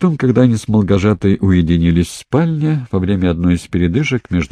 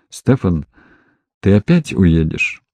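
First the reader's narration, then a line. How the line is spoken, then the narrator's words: Blurted question. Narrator (Russian): не выдержал и спросил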